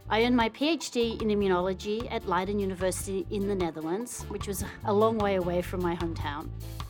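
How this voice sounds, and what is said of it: Australian accent. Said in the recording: “I was born and raised in Geelong, Australia. Yep, that's the accent you hear.”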